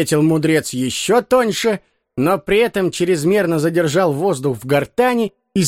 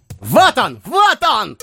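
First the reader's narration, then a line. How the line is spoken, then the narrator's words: Several voices shouting. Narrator (Russian): кричали они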